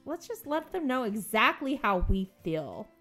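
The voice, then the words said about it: Playful mom voice. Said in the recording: “That was my mom voice.”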